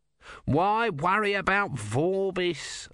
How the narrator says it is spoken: Om whined

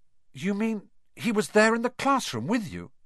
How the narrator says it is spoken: Harry gasped

